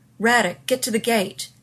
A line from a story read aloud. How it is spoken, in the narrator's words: Rodney shouted